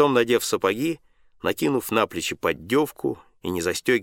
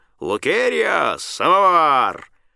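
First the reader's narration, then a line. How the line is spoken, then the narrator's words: Hoarse shout through house. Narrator (Russian): барину хрипло крикнуть на весь дом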